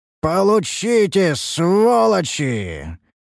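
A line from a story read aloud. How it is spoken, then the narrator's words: Roaring. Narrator (Russian): Взревел я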